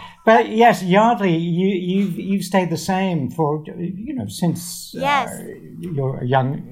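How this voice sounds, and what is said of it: Usual voice. Nothing is said of it.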